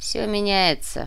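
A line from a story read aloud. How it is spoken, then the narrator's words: Grumbling. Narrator (Russian): проворчал тот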